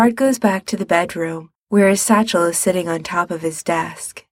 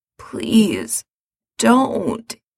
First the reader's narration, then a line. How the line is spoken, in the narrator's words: he says hoarsely